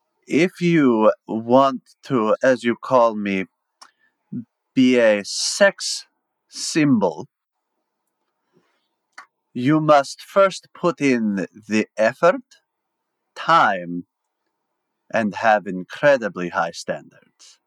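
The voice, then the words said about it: Attempted French accent, Dracula-like voice. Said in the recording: “good impression... That's terrible, because he's supposed to be a Frenchman... for a Dracula impression, it was pretty solid”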